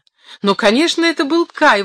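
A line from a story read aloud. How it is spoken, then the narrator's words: Exclaiming. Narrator (Russian): воскликнула Герда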